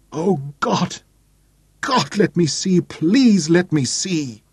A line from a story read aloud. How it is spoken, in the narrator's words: And suddenly she was weeping, great racking sobs that shook her whole body